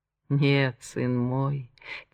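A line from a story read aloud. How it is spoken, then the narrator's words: Quiet. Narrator (Russian): тихо проговорил Монтанелли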